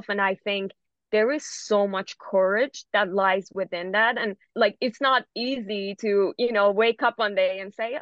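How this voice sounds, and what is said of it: Non-native English accent. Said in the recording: “people being like, oh, you have an accent”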